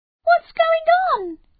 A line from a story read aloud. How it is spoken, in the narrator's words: She squeaked